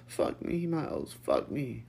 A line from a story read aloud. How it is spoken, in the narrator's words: Lucas begged, his voice cracking from the pleasure